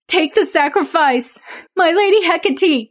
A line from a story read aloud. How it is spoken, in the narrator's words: screamed